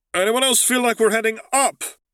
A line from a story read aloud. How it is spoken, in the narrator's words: Zev called out over the whistling of the wind